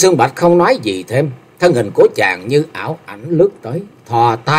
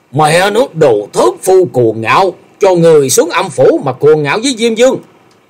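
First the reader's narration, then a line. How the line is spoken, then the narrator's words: Furious roar. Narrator (Vietnamese): Gã tiêu sư điên tiết gầm lên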